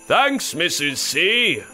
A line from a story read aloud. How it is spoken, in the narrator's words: Dasher called out